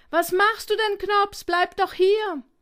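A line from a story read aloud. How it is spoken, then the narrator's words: Desperate call. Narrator (German): rief Fips verzweifelt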